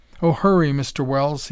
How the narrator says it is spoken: he yelled

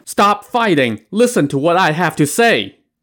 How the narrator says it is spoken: shouting

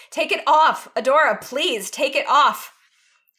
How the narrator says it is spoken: Catra … she suddenly shouts

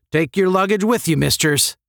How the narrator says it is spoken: snapped Herbert

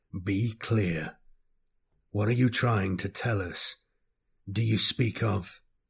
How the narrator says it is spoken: Constantius says, his voice a sinister guttural growl

